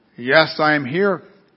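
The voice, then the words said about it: Very deep voice. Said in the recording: “came a very deep voice.”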